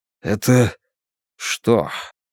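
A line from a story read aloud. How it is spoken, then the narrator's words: Hoarse question. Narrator (Russian): хрипло спросил Бен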